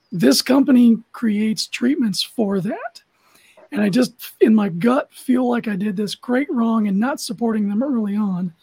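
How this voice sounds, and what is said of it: Unusual, strained voice. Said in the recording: “my voice is kind of crazy. I've got this interstitial lung fibrosis going on.”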